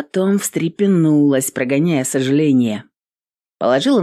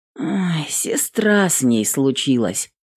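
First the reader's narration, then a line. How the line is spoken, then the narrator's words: Sad. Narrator (Russian): печально произнесла Эвелин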